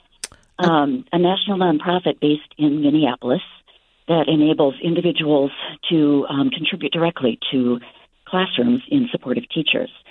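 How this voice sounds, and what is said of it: Breathless, out-of-breath speech. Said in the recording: “I'm a little out of breath running in to the office”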